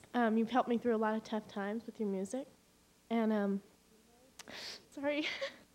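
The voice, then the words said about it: Emotional, tearful voice. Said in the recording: “I'm getting emotional, sorry ... It's okay to cry.”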